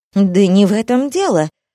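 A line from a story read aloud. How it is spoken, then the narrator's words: Exclaimed. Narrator (Russian): воскликнула змеюка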